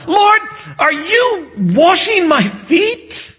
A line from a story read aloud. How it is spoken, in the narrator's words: he blurts out